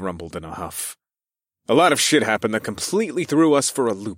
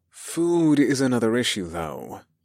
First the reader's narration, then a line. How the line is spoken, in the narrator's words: I sighed